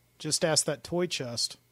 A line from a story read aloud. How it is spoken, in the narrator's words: Shauna said